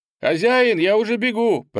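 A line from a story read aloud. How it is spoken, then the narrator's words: Boy shouting. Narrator (Russian): прокричал паренек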